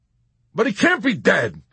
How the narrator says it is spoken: Yossarian cried, ready to argue insistently

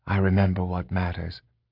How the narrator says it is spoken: he said quietly

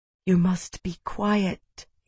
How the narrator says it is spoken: he said, whispering

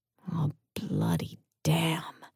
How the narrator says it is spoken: I whispered

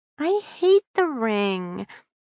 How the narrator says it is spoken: Amy whined

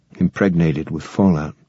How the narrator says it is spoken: Dan murmured

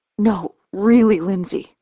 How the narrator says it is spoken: I sputter, my voice cracking

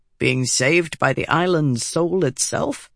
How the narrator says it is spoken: He chuckled

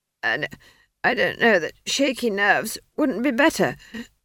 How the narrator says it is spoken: she wheezed

